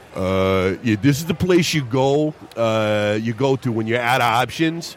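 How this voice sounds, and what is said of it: Dumb bro voice. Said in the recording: “what's a good bro voice? ... Dumb voice.”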